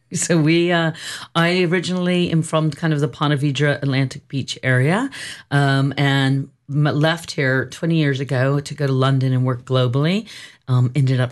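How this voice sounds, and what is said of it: Slight British accent. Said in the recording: “that slight accent comes from ... London”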